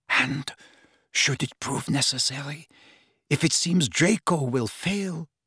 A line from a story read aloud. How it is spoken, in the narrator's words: whispered Narcissa